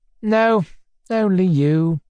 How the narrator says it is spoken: answered solemnly

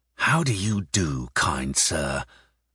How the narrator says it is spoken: Mishlaevsky whispered venomously in Ukrainian

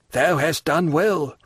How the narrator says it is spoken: returned the old man, in a hoarse voice

